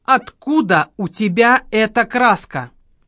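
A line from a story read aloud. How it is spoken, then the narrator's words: Stern question. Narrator (Russian): строго спросил у него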